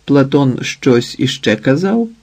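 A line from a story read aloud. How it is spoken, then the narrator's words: Calm question. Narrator (Ukrainian): спокійно запитала Іветта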